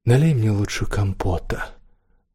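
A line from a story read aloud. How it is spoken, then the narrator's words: Calm. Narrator (Russian): спокойно сказала Девора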